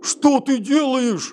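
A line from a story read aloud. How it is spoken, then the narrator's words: Yelling. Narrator (Russian): завопил Веселов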